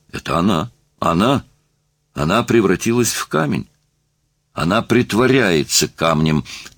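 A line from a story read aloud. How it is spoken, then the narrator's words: Irritated insistent repetition. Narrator (Russian): твердил труп и раздраженно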